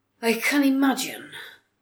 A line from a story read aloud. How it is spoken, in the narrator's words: Sancha sighed